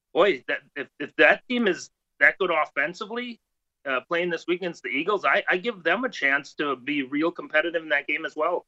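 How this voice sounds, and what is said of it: Canadian-sounding regional accent. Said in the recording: “I love the accent coming out there. I almost put him in Manitoba.”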